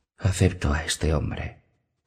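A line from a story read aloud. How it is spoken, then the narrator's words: Whispering bride. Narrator (Spanish): susurró la novia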